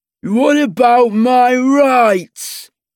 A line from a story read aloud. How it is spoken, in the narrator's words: He yells